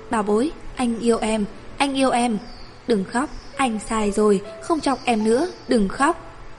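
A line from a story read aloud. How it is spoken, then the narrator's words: Hurried gentle soothing. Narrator (Vietnamese): vội dịu dàng nói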